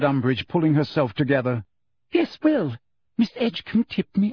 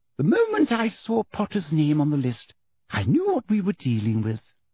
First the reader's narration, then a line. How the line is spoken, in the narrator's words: she said softly